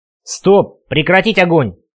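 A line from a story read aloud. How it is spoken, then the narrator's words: Roaring at full voice. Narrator (Russian): рявкнул я во все горло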